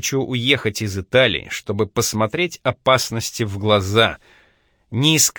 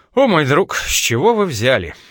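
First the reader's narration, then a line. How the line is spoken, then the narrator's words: Tired sigh. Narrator (Russian): Байрон устало вздохнул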